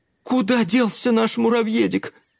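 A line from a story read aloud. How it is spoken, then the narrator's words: Sorrowful exclamation. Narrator (Russian): горестно воскликнула Клара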